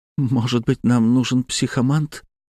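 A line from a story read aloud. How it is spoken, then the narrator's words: Trembling voice. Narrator (Russian): дрожащим голосом произнесла Панова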